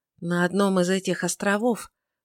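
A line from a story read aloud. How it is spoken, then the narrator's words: Very quiet. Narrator (Russian): произнесла наконец Тельма очень тихо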